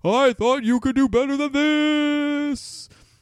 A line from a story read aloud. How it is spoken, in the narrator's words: he cries